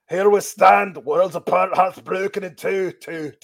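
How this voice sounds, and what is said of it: Scottish accent, imitates another person's voice. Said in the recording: “the Drew McIntyre impression is too good ... so many damn guys are Scottish”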